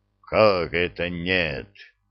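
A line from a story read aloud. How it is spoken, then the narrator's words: Indignant, strange growling voice. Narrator (Russian): возмутился некто, явно не своим злобно рычащим голосом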